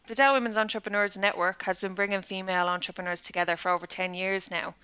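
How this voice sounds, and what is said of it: Dublin Irish accent. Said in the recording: “what a lovely accent. I love the Dublin accent.”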